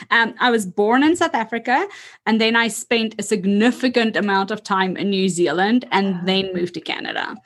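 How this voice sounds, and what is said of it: A slight, hard-to-place accent. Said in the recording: “I thought there's an accent, but I wasn't sure. I was like, maybe that's Canadian, but I don't know.”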